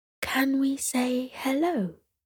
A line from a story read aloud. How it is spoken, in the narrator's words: Sierra whispered back to her mother